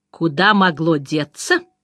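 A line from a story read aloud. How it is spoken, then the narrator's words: Hissing. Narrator (Russian): прошипел он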